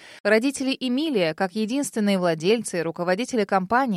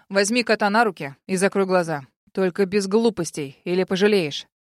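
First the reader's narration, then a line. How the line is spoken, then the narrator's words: Man's rough demand. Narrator (Russian): высокий мужчина в балаклаве … грубо потребовал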